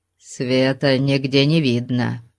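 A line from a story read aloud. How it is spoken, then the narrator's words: Grumbling. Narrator (Russian): пробурчал кемериец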